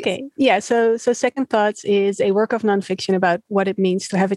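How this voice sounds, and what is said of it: Dutch accent. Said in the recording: “my first podcast with someone in the Netherlands ... she is also from the Netherlands ... I get your accent around us very often.”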